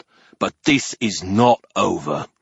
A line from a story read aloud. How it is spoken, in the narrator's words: the ogre growled